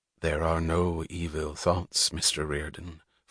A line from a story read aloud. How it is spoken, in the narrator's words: Francisco said softly